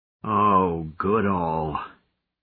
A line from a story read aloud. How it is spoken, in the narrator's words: Fibbon moaned